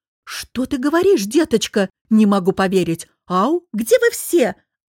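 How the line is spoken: Deafening shout. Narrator (Russian): Оборачиваясь, крикнула леди Ганна, на мгновение оглушив Софью

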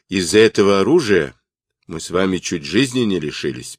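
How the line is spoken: Displeased old man. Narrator (Russian): проговорил старый князь недовольным тоном

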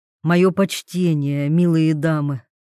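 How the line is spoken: Soft, apologetic. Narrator (Russian): Голос вольных звучал мягко, словно он извинялся за то, что вторгся на запретную территорию

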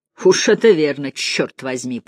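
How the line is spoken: Growling. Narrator (Russian): прорычал Торренс

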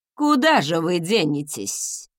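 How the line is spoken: Gruff mutter. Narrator (Russian): буркнула госпожа Тарт

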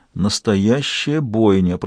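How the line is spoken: Whisper. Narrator (Russian): прошептал он

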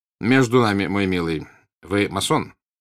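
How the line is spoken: Stern yet forgiving tone. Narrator (Russian): сказал граф Растопчин строгим тоном, как будто было что-то дурное в этом, но что он намерен был простить

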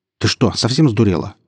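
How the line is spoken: Sharp, curt. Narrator (Russian): резко бросил он

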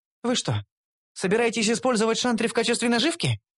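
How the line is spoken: Displeased tone. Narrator (Russian): высказала Карамель не особо довольным тоном

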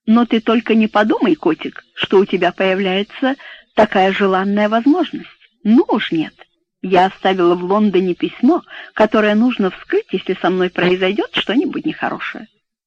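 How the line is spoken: Laughing. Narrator (Russian): рассмеялась и сказала

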